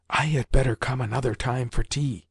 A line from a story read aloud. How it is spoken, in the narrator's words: said Basil in a whisper